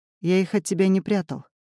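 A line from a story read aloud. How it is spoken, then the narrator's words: Calm. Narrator (Russian): говорит он спокойно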